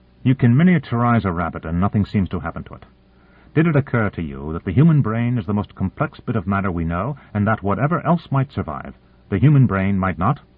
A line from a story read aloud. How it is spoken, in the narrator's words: said in a harsh voice